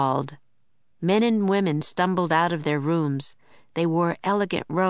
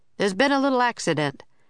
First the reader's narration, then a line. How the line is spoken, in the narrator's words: the man in the uniform said cheerfully